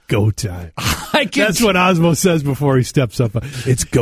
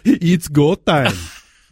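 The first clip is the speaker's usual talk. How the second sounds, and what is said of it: Finnish accent impression of Osmo Vänskä. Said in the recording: “Give me a little Finnish accent here.”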